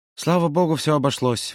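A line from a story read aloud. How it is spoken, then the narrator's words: Relieved sigh. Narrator (Russian): вздохнул тот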